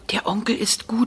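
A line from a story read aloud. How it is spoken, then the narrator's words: Child's whisper. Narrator (German): flüstert der kleine Andrzej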